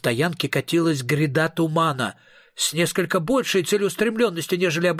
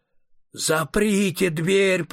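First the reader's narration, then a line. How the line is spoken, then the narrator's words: Moaning. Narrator (Russian): простонал император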